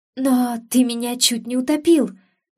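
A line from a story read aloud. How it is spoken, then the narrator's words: Exclaiming with grievance. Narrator (Russian): воскликнула я, наконец приходя в себя и вспоминая все свои претензии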